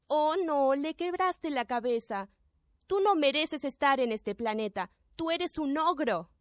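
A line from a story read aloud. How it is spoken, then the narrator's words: Shouting. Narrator (Spanish): Christie gritó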